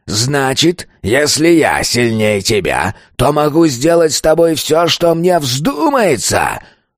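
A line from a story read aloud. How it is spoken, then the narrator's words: Roar. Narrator (Russian): Взревел он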